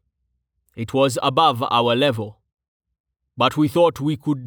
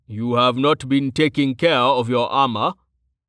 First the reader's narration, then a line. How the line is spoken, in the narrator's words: Tallheart said flatly